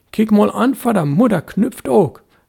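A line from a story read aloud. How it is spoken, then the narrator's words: Cheerful boy calling. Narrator (German): rief der Junge lustig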